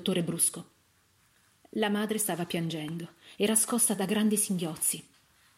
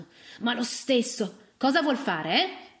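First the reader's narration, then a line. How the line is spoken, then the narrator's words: Woman nearly shouting. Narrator (Italian): intervenne la moglie del locandiere quasi gridando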